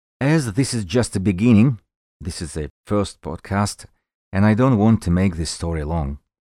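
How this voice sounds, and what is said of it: Heavy accent. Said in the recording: “the guy with the heavy accent”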